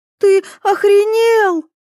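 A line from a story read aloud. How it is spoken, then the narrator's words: Shrieking. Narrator (Russian): завизжала Ива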